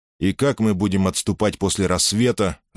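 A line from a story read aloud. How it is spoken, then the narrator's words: Irritated question. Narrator (Russian): раздраженно поинтересовался Юлий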